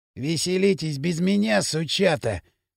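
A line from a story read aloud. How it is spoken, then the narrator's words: Vengeful mutter. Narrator (Russian): мстительно бормотал Пакля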